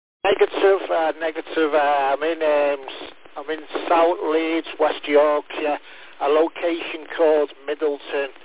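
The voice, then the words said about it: Liverpool accent. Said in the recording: “You've got a Liverpool accent”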